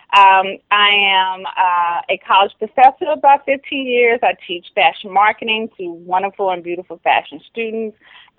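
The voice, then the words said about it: Southern American accent. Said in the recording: “I am Southern-born. If you cannot hear the Southern accent”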